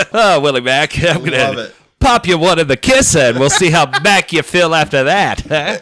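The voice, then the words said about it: 1920s radio announcer voice. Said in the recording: “he talks like this ... It's got that 1920s radio announcer voice.”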